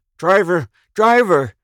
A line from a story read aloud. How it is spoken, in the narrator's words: he cried